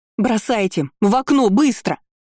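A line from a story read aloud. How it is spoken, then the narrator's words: Yelling. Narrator (Russian): заорала я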